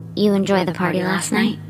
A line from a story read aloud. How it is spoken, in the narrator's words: asked